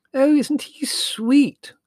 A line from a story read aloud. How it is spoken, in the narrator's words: cried Margot